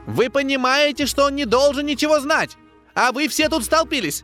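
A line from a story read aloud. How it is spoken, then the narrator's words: Little man shrieking. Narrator (Russian): Истошно кричал маленький человечек в серебристом комбинезоне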